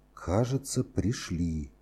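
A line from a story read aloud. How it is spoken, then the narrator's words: Whispered. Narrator (Russian): прошептал он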